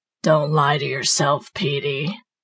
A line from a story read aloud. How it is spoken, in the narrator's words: she said, now in a hideous, guttural voice